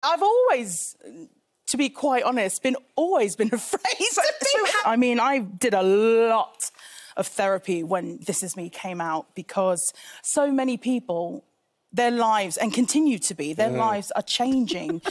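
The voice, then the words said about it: British-sounding accent. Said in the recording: “wait, she's got a British accent?”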